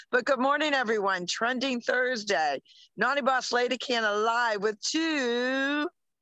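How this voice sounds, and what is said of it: Slightly hoarse voice. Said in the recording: “a little hoarse”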